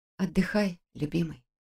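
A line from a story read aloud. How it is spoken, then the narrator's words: Whispered. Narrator (Russian): прошептала я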